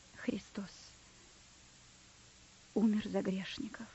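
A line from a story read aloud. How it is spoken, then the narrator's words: Quiet, sad. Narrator (Russian): произнес провизор тихо и печально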